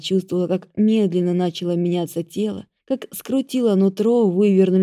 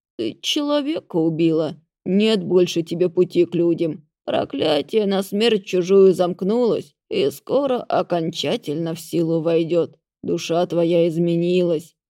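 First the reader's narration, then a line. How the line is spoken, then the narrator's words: Creaky voice, forest master. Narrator (Russian): проскрипел хозяин леса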